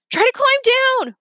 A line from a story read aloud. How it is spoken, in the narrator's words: Remy yelled